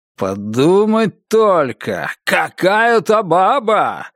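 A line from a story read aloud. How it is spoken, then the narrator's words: Yelling. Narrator (Russian): вопил Рэй Дэниелс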